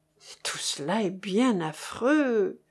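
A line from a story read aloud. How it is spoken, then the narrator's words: Sighing. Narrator (French): soupira le marquis du Touchet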